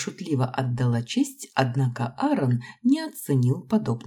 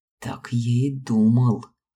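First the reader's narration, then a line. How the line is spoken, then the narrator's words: Growling. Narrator (Russian): прорычал Аарон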